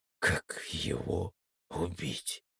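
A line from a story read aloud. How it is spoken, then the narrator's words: Mumbling. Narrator (Russian): только и промямлил я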